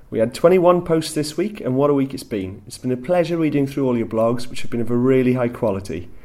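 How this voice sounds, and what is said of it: West Welsh accent. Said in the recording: “my West Walian accent”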